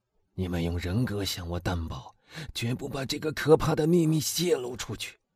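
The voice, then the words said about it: Hoarse, strained voice. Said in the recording (Chinese): “他用一种嘶哑的声音说”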